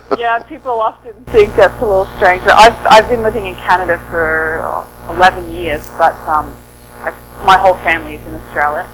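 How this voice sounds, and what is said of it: Australian accent. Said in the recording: “I grew up in Australia, on the east coast of Australia ... I was wondering where the accent didn't sound Canadian.”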